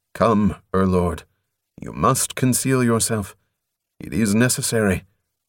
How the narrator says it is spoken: The blood guard said as evenly as if he were announcing the time of day

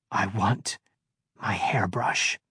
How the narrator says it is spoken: she whispered in his ear

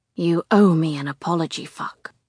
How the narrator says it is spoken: growls

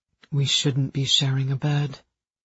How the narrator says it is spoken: he said quietly

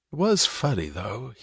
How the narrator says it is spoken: he said, his tone easier, livelier, the tone of a confidence to a pal

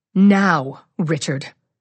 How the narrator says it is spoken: she snaps

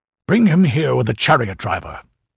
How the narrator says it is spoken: snapped Demetrio

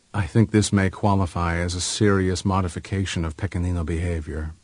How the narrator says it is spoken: Pipo said gravely

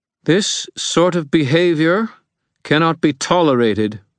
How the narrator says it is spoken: she said, her voice carrying to the entire room

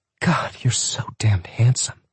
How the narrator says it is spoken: in a voice that sounded like half a whimper, half a moan, she said

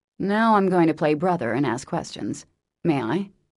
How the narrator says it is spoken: say gravely

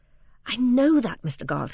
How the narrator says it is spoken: said Fred eagerly

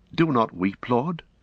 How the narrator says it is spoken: he stammered

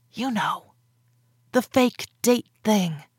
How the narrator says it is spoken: whispered

